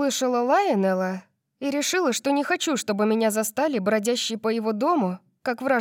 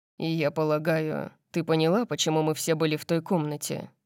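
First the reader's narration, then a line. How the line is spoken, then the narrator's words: Grim question. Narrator (Russian): мрачно спросил он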